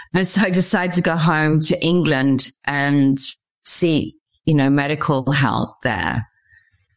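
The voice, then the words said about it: English accent. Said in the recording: “I'm obviously from Stratford-upon-Avon in England. You can tell by my accent.”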